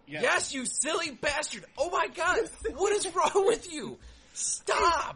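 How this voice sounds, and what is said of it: Yelling angrily. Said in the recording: “Why are you yelling at me?”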